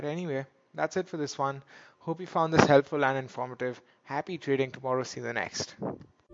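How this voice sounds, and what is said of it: Sore throat, softer voice. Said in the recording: “My throat is a bit sore... my voice might sound a little bit softer than normal”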